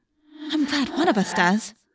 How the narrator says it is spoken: I said nervously

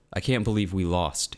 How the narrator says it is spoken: she said

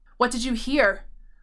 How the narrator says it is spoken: The question was fairly snarled

